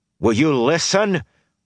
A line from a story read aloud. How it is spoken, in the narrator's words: He shouted, glaring